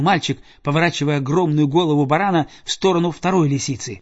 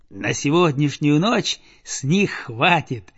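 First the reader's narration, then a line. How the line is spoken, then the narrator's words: Plain. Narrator (Russian): сказал мальчик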